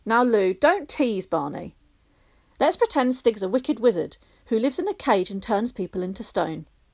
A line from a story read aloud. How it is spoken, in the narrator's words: Lou began eagerly